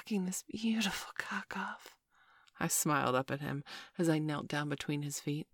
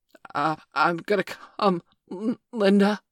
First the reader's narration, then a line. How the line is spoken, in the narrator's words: he gasped